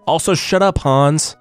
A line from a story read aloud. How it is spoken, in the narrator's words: the apprentice yelled back